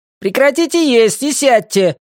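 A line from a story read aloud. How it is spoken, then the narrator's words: Shouted. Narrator (Russian): крикнул Эйгю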